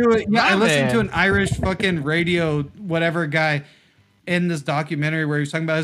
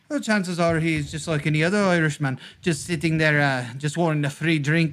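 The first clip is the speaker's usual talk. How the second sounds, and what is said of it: Irish accent, done well. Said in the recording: “That would be a pretty good Irish accent”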